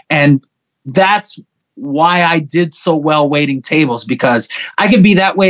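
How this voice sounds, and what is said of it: Usual voice. Nothing is said of it.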